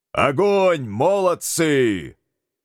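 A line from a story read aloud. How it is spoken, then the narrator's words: Loud shout. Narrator (Russian): Фома громко выкрикнул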